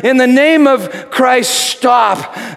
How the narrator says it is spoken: Telemachus pleading

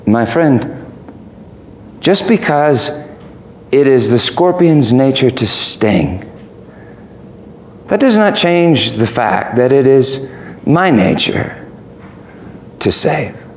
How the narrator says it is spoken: The old man said calmly

